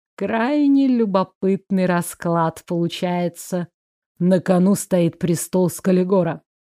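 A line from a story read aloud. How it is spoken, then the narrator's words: Insinuating drawl. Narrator (Russian): вкрадчиво протянул Артгал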